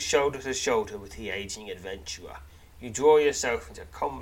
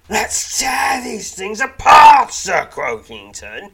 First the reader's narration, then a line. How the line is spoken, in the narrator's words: snarls